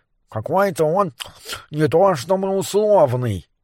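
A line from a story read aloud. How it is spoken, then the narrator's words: Grumbling with full mouth. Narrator (Russian): пробурчал Морис с набитым ртом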